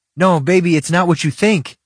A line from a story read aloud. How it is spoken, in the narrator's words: I said desperately